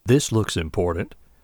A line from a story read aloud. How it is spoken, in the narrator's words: she murmured